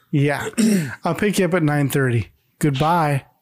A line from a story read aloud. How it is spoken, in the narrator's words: Greg laughs and says